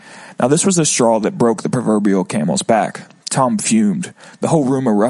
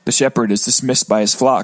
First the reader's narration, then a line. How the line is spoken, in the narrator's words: I replied with a chuckle as my face ran red with embarrassment